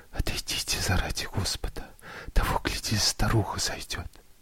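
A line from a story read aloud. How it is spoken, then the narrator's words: Frightened embarrassed whisper. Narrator (Russian): с испугом, вся покраснев, прошептала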